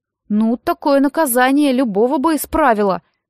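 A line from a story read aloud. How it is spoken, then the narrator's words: Freedom-loving girl exclaiming. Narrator (Russian): воскликнула Нэн, больше всего любившая свободу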